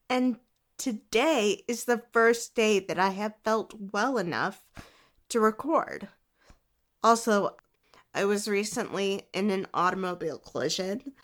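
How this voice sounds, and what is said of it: Voice sounds sick with a cold. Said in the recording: “I'm getting over a cold that has been lingering for weeks. I'm sure you can hear it in my voice”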